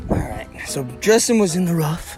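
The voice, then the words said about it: Half-whispered speech. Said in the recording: “I don't know why I'm whispering. I like half whispered.”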